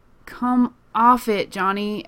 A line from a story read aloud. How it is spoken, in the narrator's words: Erica groans